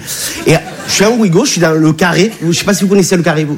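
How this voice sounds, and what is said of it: Regional French accent. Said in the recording (French): “tu as vu mon accent, je viens pas de Bagnolet”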